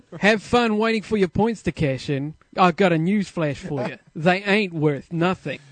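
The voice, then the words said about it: Australian or New Zealand accent. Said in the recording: “Even an insult sounds like nice with an Australian accent or a New Zealand accent. ... You think that's New Zealand or Australian?”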